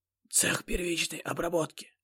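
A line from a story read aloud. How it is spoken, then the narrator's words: Whisper. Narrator (Russian): шепнул мне химик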